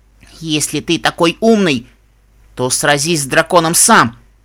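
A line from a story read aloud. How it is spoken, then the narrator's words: Growled. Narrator (Russian): прорычала Пегаска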